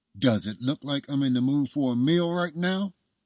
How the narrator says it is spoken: said through gritted teeth

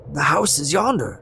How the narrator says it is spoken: Scrooge exclaimed

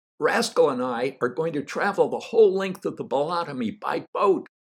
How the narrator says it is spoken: I shouted

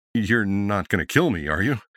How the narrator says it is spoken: said with a nervous laugh

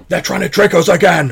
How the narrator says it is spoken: he shouts

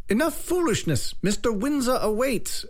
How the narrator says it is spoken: Agnes snapped, now sounding like a drill sergeant

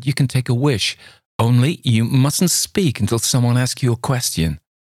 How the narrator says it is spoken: she cried

